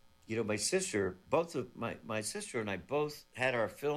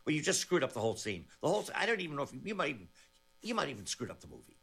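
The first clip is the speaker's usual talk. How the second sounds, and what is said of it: Martin Scorsese impression. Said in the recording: “great Scorsese impression”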